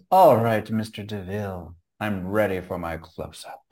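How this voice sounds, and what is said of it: Imitates a film character's voice. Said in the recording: “That was my impersonation.”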